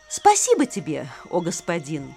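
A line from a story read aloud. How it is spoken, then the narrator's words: Plain. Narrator (Russian): ответил Арджуна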